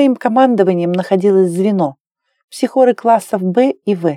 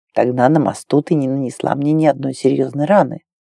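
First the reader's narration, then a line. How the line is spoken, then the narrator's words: Quiet. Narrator (Russian): тихо сказал Вен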